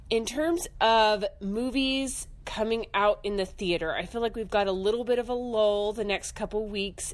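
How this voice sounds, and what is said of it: Voice altered by a cold. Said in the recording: “my voice sounds a little bit different this week, that's because I am currently getting over a cold”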